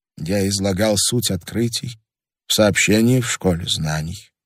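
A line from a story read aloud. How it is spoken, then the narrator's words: Quiet. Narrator (Russian): тихо сказал археолог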